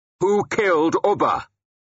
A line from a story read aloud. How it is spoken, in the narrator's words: I shouted at him